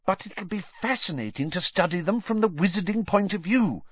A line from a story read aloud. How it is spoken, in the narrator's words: said Hermione earnestly